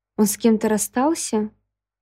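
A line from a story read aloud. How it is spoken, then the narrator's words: Uninterested question. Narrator (Russian): Незаинтересованным тоном спросила я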